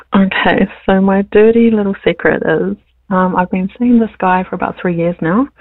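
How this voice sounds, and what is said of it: Sick, weakened voice. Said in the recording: “I'm also sick at the moment too, so my voice isn't the greatest”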